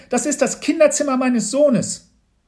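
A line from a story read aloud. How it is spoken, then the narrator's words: Screaming. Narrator (German): schrie Mama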